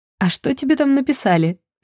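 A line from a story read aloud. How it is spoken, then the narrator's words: Curious giggle. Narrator (Russian): С любопытством хихикнула Арина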